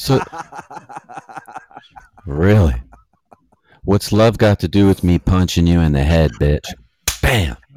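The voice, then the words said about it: Imitates another person's voice. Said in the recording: “I was doing an impression of Ike.”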